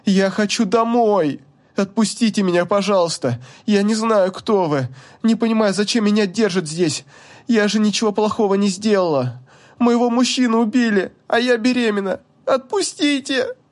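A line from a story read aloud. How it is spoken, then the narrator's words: Convincing sobbing. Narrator (Russian): она рыдала очень достоверно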